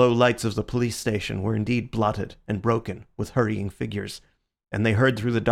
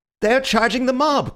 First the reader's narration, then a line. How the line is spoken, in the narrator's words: cried Bull, in ecstasy or alarm